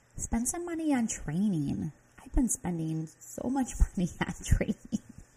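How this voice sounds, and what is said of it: Midwest American accent. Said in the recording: “my Midwest accent”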